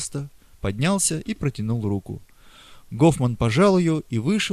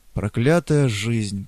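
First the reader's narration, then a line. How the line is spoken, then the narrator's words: Grumbled. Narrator (Russian): проворчал Гофман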